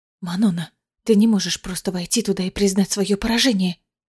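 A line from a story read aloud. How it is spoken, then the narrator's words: Whispered. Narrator (Russian): прошептала Астерина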